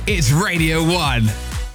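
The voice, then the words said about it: Imitates TV show announcer voice. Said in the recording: “your X Factor impression ... the guy who does the actual X Factor voice”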